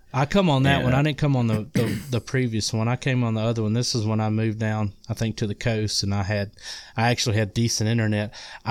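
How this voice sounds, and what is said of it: Mississippi Southern accent. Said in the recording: “now I'm in Mississippi. If you can't tell by my accent”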